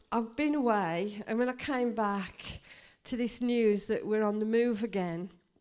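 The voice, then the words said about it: Weak voice. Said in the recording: “my voice is a little bit weak”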